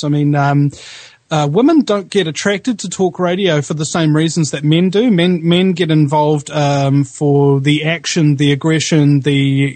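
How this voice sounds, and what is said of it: New Zealand accent. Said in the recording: “I'm from New Zealand ... I've got that very, very nice accent, don't I? Very sexy, very nice.”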